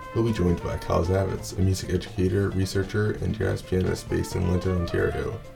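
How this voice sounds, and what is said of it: Unusually deep, ill-sounding voice. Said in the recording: “my voice is a lot deeper thanks to our lovable friend, COVID”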